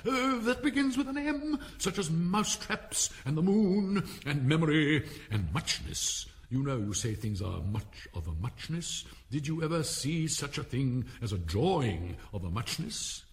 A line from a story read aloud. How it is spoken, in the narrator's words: But on being pinched by the Hatter, it woke up again with a little shriek and went on